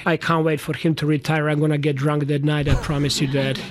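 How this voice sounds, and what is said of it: Speaks with a foreign accent. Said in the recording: “can anybody take him serious with that accent”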